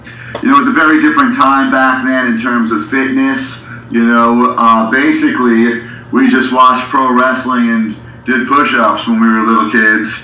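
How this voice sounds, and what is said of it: Heavy New York accent. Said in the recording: “I'm hearing a very heavy New York accent there.”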